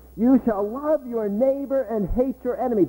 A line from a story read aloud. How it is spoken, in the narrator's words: shouted until he was hoarse